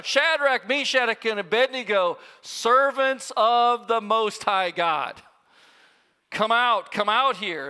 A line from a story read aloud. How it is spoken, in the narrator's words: Nebuchadnezzar ... he shouts